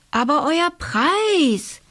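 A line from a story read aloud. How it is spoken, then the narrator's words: Called out. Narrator (German): rief der König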